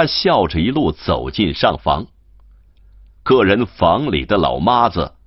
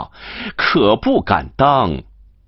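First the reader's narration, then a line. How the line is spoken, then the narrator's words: Laughing. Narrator (Chinese): 王玉芬笑道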